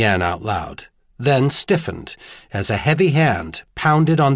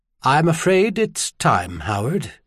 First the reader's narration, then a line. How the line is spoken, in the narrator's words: he said in a remarkably calm voice